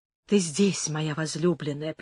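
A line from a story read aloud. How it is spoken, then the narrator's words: Whisper. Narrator (Russian): прошептал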